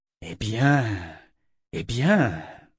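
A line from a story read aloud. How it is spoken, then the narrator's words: Hissed. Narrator (French): siffla-t-elle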